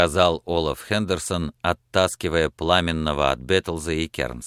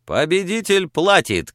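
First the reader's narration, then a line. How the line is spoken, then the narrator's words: Shouting. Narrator (Russian): крикнул пламенный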